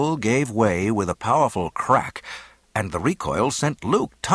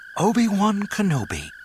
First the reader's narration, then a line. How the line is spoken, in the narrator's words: the voice implored huskily